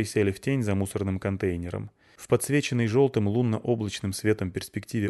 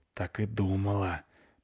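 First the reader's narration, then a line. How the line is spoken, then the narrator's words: Displeased whisper. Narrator (Russian): прошептала недовольно Клюся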